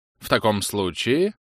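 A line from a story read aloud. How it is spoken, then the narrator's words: Indignant tone. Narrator (Russian): сказала леди Хаммергаллоу, говоря определенно возмущенным тоном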